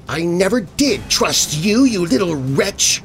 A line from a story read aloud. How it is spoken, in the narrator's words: the nun spat